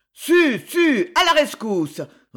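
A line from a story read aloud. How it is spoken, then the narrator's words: Crowd roaring. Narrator (French): rugirent les gens de Concini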